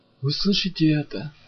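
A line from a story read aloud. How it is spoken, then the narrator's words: Whisper. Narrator (Russian): прошептал Башка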